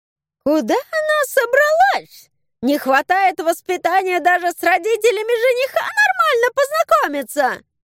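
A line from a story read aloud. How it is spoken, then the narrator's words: Squeaky voice. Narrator (Russian): Пропищала сами знаете кто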